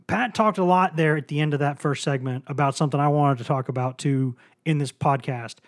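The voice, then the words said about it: Worn, weak voice. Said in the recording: “My voice is a little bit shot this evening... I've got a little bit of a weakness in the vocal cords right now.”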